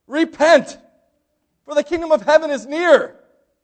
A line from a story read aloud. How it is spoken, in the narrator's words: John the Baptist shouting out